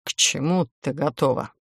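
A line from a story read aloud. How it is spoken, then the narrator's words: Quiet, after clearing throat. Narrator (Russian): Кашлянув, чтобы прочистить горло, демон тихо уточнил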